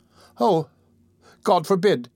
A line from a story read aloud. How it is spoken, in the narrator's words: exclaimed Oliver hastily